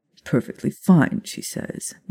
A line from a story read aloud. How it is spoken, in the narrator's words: Bill muttered